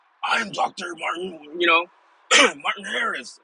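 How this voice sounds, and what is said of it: Liam Neeson impression. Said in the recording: “my Liam Neeson impression.”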